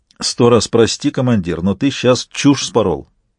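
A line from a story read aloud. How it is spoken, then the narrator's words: Plain. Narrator (Russian): сказал Шидарис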